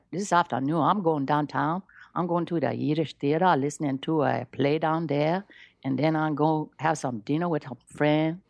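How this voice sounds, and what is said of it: Put-on Liberian accent. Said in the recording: “A very interesting accent in Africa is Liberian ... that is a very fascinating African accent. ... I could do Liberian. ... I'm not so warmed up today”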